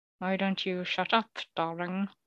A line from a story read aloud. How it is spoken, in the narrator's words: she said, through gritted teeth